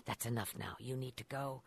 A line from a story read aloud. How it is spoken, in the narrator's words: saying just under her breath